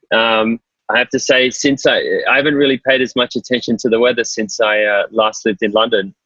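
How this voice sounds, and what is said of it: Australian accent. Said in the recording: “it's fair to say by the accent that you're not actually from New York ... I'm from Sydney. I'm Australian”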